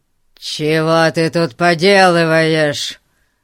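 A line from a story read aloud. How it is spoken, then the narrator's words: Growling. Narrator (Russian): зарычал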